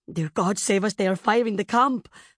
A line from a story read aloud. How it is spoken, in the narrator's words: her nurse gasped